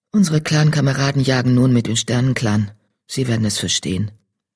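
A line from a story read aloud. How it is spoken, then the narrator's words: Soft meow-like speech. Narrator (German): miaute Farnherz leise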